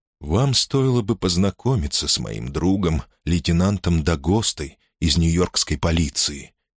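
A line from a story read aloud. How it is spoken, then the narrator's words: Soft remark. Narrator (Russian): мягко заметил Пендергаст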